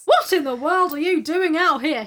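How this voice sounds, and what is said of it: Bad put-on Australian accent. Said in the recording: “a very bad Australian accent”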